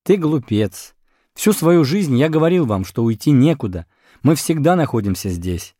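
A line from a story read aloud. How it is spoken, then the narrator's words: Laughing. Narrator (Russian): он засмеялся и сказал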